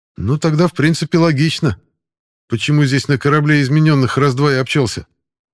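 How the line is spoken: Smirk over heavy pounding. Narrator (Russian): хмыкнул Пашка под тяжелые удары с той стороны

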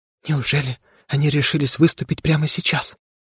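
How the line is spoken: Whisper. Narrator (Russian): прошептала она

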